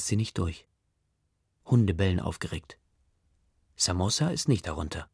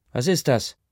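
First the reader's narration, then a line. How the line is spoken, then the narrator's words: Voice calling nearby. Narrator (German): ruft eine Stimme neben Ma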